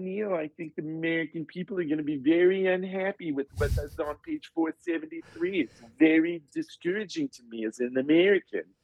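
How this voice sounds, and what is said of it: Imitates another person's voice. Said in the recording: “wait till you hear him talk. That's exactly how he talks ... I do a very good impersonation of you”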